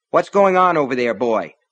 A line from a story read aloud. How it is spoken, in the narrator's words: she asked sharply